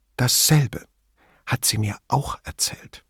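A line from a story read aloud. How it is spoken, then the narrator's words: Very quiet. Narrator (German): Schließlich sagte sie sehr leise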